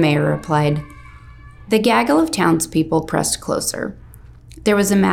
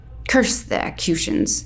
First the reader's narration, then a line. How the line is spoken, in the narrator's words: growled the stableman a few paces away